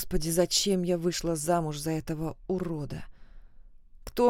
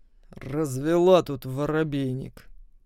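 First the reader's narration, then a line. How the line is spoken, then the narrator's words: Husband muttering through teeth. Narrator (Russian): процедил муж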